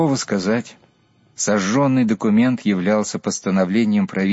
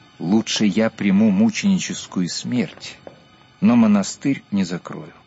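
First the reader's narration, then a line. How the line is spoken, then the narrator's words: Calm explanation. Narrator (Russian): спокойно пояснил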